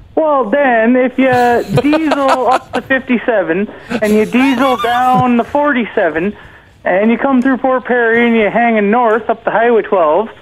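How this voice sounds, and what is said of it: Small-town Ontario accent. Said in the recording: “That is a slick, small-town Ontario accent.”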